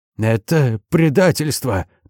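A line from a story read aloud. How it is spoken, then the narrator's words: Hiss. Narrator (Russian): прошипел Марин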